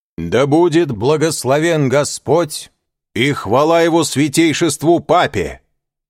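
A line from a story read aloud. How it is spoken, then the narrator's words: Loud and clear. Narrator (Russian): произнес он громко и отчетливо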